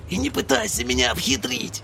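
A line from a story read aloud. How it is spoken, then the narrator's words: Whispering. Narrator (Russian): прошептал режь глотку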